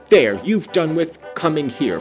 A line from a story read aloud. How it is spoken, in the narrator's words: cried Catherine